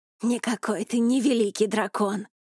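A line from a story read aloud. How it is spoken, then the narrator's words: Hissing in face. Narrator (Russian): прошипел ему в лицо Сайгат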